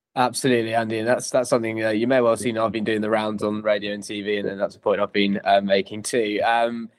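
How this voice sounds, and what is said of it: Worn, tired-sounding voice. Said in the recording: “You might be able to tell from my voice, the last 3 weeks have taken their toll on me.”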